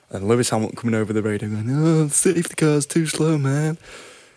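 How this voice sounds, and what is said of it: Imitates another person's voice. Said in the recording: “Great impression of Lewis there”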